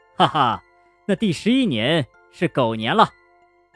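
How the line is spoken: Laughing heartily. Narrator (Chinese): 玉皇大帝哈哈大笑着说

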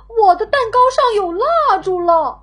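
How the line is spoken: Calling out. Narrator (Chinese): 他喊

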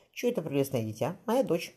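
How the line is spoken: Tender. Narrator (Russian): ласково сказал хирург

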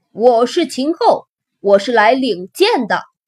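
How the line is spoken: Shout. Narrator (Chinese): 喊完

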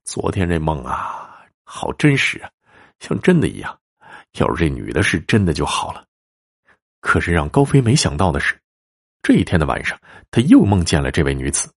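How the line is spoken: Sighing. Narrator (Chinese): 哎呦，高飞叹了口气说

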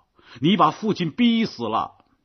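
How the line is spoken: Shout. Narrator (Chinese): 纽辛根太太叫道

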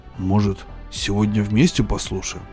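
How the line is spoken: Plain. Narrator (Russian): спросил я

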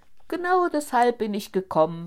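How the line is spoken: Exclaimed. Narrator (German): rief der Schneider aus

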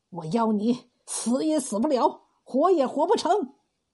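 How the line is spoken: Through gritted teeth. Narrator (Chinese): 王财主咬牙切齿的说

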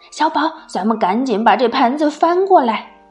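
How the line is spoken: Urgent shout. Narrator (Chinese): 赶紧大叫

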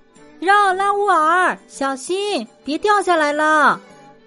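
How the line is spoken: Girl crying out. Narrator (Chinese): 一个女孩叫了起来

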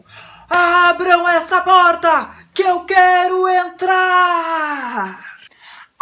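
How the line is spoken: Wolf shouting. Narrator (Portuguese): o lobo gritou

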